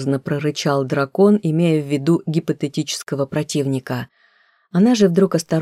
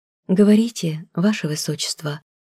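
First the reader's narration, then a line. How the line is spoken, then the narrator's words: Quiet, timid permission. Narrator (Russian): разрешила тихо, робко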